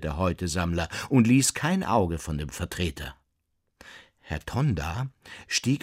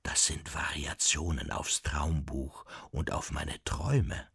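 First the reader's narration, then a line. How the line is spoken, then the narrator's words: Whispered. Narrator (German): flüsterte Herr Nulicek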